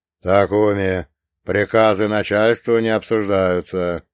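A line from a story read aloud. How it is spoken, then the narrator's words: Deep bass voice. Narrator (Russian): пробасил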